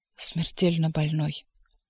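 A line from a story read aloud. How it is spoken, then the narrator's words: Whisper. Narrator (Russian): он шепнул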